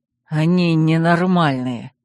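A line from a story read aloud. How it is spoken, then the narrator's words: Disgusted mutter. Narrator (Russian): с отвращением буркнул Корвин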